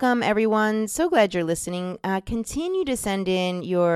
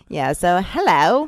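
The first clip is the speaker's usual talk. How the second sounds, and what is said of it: Bad put-on Cockney accent. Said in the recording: “That's a terrible Cockney accent.”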